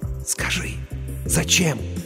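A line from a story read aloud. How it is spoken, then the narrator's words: Trembling excited whisper. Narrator (Russian): Дрожа от возбуждения, рулевой прошептал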